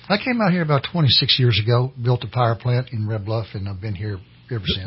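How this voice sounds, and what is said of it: Southern US (Kentucky) accent. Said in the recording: “You're proper Southern gentleman, that accent, and I was like, that is not a Red Bluff accent,”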